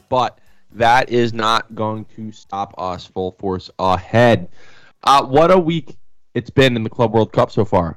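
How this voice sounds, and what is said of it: Voice sounds sick, under the weather. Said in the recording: “Apologize for the voice a little under the weather today”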